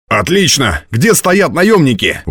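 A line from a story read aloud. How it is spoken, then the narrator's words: Exclamation. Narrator (Russian): воскликнул Ратибор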